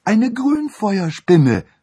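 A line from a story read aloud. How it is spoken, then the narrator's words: Shout. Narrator (German): rief Annabel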